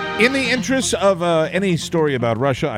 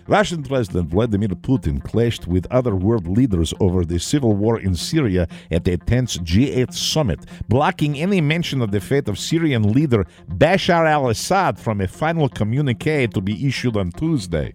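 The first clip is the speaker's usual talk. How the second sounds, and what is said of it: Put-on Russian accent. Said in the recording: “I will use my Russian accent to read this news story”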